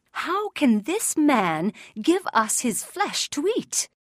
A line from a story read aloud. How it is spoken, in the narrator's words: the rabbis exclaimed angrily